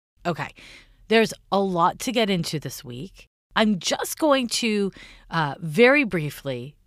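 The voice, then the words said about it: Slightly off, sick-sounding voice. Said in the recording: “I am a little sick today ... my voice is a little funky”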